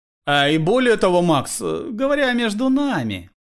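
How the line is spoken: Ingratiating tone, uncle. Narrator (Russian): вкрадчивым тоном добавил дядя

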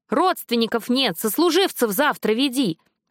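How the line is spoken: Yelling from behind desk. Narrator (Russian): заорал из-за стола сотрудник морга

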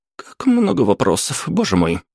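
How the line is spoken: Mumble. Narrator (Russian): пробормотала незнакомка

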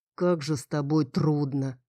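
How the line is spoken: Older grumbling voice. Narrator (Russian): ворчал голос постарше

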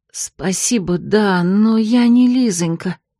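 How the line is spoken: Hoarse, clearer. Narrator (Russian): прохрипела я куда более внятно

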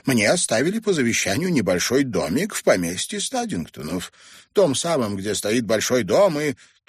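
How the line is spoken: Businesslike tone. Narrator (Russian): миссис Мэй добавила деловым тоном

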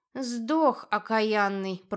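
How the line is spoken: Grumbling woman. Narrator (Russian): проворчала женщина

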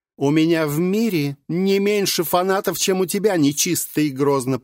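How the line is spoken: Shout. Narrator (Russian): прокричала Мария

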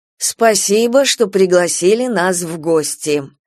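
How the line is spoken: Snorting. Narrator (Russian): Карим фыркнул

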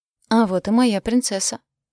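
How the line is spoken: Exclaiming father. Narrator (Russian): воскликнул папа

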